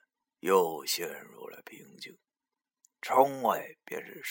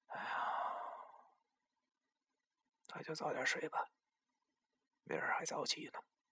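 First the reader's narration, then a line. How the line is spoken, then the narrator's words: Sighing after silence. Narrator (Chinese): 文叔……沉默了一会儿，然后叹了口气，对我说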